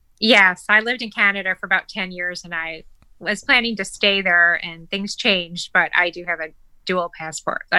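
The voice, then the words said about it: American accent. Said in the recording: “I can tell from your accent, and so can everybody else, that you're an American.”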